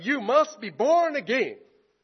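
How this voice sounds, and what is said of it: American TV preacher voice. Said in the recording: “sound like a preacher on American TV ... am I sounding like a tele-evangelist?”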